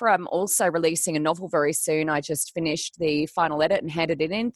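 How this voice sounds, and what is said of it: Flat, slightly unwell voice. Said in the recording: “I'm a little flat. I'm a little unwell today. You can probably hear that in my voice”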